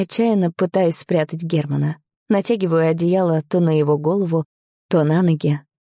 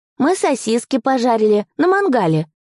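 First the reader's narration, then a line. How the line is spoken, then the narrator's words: Cheerful announcement. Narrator (Russian): радостно объявляет сын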